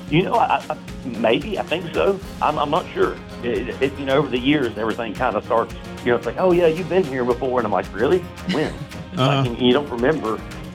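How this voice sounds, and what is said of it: Southern US country accent. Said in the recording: “where's that accent come from? ... I'm from North Florida, and a lot of people don't associate Florida with a, kind of country accent.”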